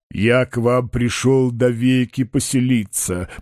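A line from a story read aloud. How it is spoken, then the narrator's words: Lowing, cow-like voice. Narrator (Russian): повторил Лоханкин коровьим голосом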